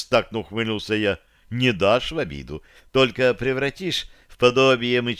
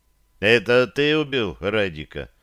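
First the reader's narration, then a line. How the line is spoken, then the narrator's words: Dry question. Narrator (Russian): сухо спросил я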